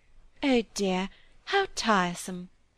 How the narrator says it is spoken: said Clare, still in her sweet gentle voice, not at all as if she was angry, only expressing an obvious truth

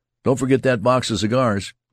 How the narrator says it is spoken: shout over his shoulder

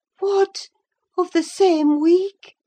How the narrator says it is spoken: she exclaimed

